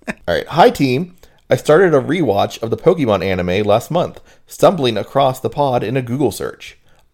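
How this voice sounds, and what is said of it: Regional American accent. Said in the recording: “The title is Morning, Y'all. So, clearly someone's ticked up on our regional accents.”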